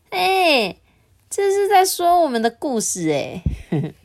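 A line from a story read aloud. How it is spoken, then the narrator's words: Laughing heartily. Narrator (Chinese): 他们会哈哈大笑，说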